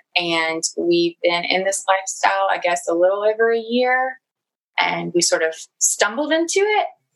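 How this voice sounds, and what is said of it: Southern US accent. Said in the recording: “we live in the South, like very South. You can probably tell from my accent.”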